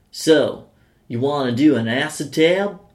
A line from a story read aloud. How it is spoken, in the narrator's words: one of the town locals asked in his thick American accent